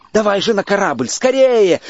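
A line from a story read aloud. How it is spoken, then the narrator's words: Group shouting. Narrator (Russian): закричали мы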